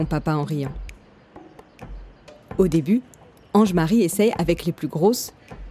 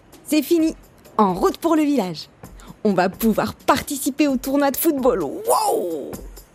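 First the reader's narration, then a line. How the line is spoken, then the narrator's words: Impatient shout. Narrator (French): Impatient, s'écrie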